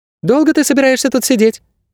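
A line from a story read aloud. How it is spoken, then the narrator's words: Thin squeak close by. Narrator (Russian): пискнул совсем рядом тоненький голос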